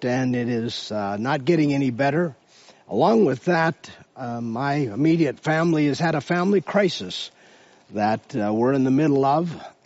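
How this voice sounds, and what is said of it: Hoarse voice. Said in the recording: “As you can tell from my voice, I have been struggling all week with a hoarse throat”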